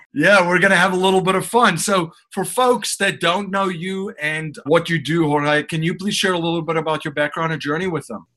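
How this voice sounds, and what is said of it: Speaks with a noticeable accent. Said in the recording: “I like the accent too”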